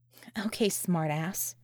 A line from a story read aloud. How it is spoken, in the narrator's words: she muttered